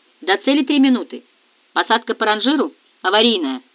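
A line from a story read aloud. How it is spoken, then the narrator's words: Clipped, curt. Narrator (Russian): отрывисто бросил Диего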